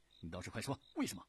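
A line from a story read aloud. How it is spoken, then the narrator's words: Urgent question. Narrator (Chinese): 尤忠急忙问道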